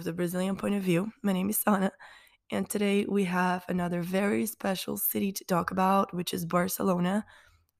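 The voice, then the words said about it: Weak, nearly lost voice. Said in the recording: “as you can obviously hear, my voice is just like non-existent, basically... I've been sick for over a week now... I've been coughing so much”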